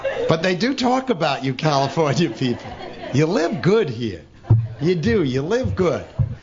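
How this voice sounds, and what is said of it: New York accent. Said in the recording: “I also live in New York, and I guess you people always say your accent. You from New York?”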